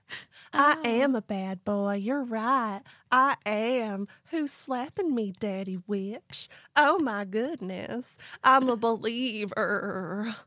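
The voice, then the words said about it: Put-on Baltimore accent. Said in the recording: “That's a classic Baltimore accent. ... that's what people from Baltimore sound like”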